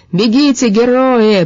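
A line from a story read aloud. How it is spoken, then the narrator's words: Shouted after them. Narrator (Russian): прокричал он им вслед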